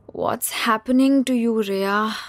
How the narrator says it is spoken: She sighed to nobody in particular

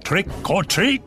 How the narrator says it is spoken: they yelled

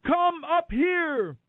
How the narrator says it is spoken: a loud voice shouted from heaven

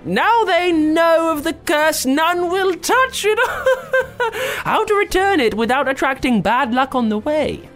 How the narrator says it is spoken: a voice piped up

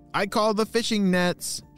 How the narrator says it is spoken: shouted Lee

